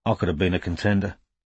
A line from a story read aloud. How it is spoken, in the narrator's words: some wisecracker murmured